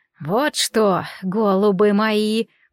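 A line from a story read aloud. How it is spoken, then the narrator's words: Old woman's creaky croak. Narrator (Russian): проскрипела ведьма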